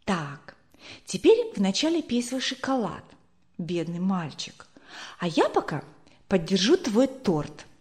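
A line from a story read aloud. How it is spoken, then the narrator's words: Whispered. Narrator (Russian): Она прошептала ему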